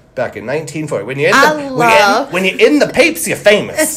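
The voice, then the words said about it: Put-on 1940s New York accent. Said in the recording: “Love this accent. ... Like 1940s New York. ... talk in that accent”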